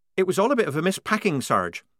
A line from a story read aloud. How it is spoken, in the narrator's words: said Polly quickly, anxious to keep away from anything connected with missing ringlets